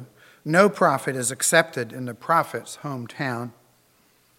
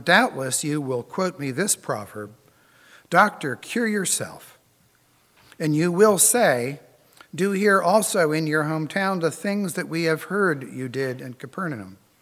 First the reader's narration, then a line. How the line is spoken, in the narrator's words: And he said